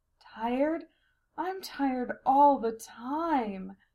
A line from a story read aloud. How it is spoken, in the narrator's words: Sylphia moaned